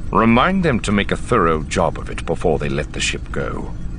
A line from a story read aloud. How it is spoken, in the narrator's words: Thrawn said grimly